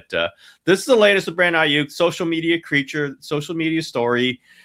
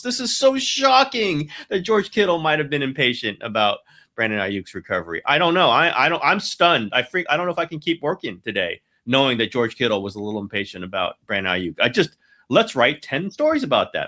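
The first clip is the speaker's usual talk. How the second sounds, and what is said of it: Sarcastic mock-shocked delivery. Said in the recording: “being sarcastic”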